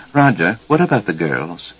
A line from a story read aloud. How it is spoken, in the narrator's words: Jessica, just before sleep was to take them, whispered